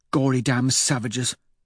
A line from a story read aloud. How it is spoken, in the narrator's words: Victor mutters